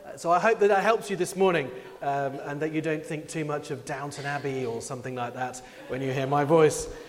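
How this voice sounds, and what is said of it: English accent. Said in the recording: “I have the funny English accent”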